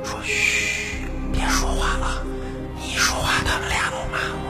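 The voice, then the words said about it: Whispering, hushed voice. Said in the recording (Chinese): “小声”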